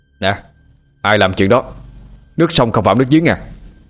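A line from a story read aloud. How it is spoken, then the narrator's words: Snapping irritably. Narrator (Vietnamese): Tâm quay lại gắt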